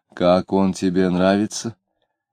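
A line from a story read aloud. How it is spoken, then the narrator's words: Sighing mother asking. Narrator (Russian): мать, вздохнув, спросила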